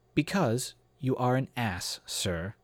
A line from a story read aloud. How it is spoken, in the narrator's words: said calmly